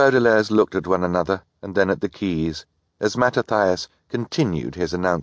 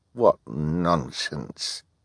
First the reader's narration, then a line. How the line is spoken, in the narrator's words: Hal muttered